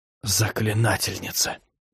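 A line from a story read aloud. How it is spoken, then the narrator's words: Barely audible. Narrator (Russian): едва слышно произнесла Лесси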